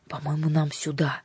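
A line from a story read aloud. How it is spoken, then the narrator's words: Whisper. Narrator (Russian): прошептал отец Василий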